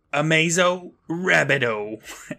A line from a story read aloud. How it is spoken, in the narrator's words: laughs like Pee Wee Herman